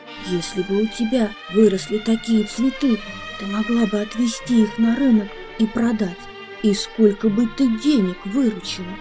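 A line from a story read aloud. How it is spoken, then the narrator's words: Snake whispering. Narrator (Russian): Другая змея нашептывала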